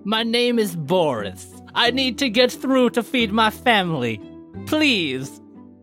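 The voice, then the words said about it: Deliberately terrible put-on foreign accent. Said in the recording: “that's a terrible accent”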